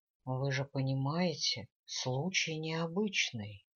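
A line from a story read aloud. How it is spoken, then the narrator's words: Deceptively soft. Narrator (Russian): он продолжал обманчиво мягко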